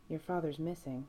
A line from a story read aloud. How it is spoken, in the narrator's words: Sam says softly